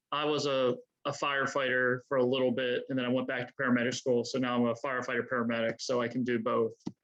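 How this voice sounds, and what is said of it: Baltimore accent. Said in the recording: “My Baltimore accent. All right, that's my Baltimore accent.”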